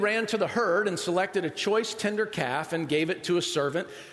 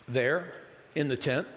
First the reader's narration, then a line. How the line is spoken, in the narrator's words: he said